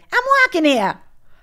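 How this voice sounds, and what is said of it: Put-on New York accent. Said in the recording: “That's the New York accent.”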